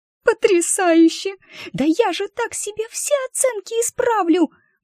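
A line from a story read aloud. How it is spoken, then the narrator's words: Reverent squeak. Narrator (Russian): благоговейно пропищала Уча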